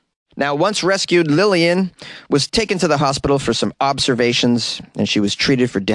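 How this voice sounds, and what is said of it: Usual voice. Nothing is said of it.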